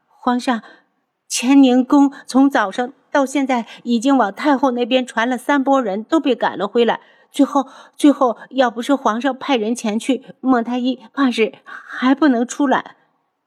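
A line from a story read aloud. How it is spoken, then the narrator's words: Trembling, crying young girl. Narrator (Chinese): 一个已经吓哭的小宫女哆哆嗦嗦的边哭边道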